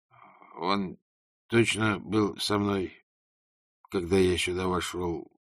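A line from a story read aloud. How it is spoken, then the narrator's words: Dejected mutter. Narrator (Russian): пробормотал он, и его плечи обмякли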